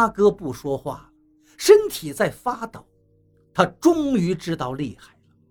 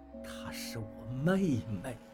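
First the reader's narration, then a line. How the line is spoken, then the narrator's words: Soft voice. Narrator (Chinese): 王八轻声说道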